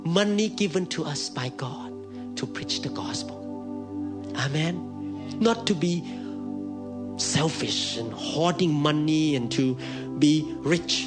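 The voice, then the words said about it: Thai accent. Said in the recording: “Mine is Thai accent.”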